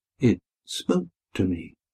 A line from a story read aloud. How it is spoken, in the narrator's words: murmured Daniel